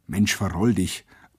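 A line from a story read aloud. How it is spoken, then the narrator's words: Low murmur. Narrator (German): raunte mir ein Arbeiter zu, hastig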